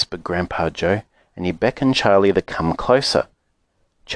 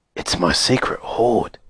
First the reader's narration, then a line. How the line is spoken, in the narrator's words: he whispered